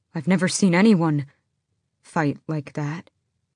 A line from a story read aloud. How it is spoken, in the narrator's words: the sentry said